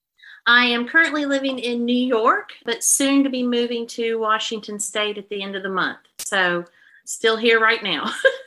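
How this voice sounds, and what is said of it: Slight Southern American accent. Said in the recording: “a bit of a Southern accent in there. It's there.”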